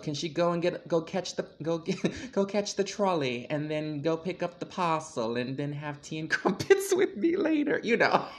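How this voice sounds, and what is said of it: Put-on accent. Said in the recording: “It was a good accent. ... It was a great accent.”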